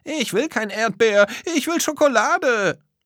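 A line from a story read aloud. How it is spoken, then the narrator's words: Child shouting. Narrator (German): Ein Kind brüllte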